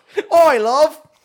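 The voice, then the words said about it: Put-on thick Cockney accent. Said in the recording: “She's got a thick Cockney accent.”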